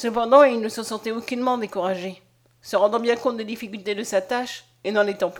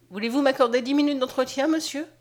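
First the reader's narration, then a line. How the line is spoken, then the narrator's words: Plain. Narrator (French): demanda-t-elle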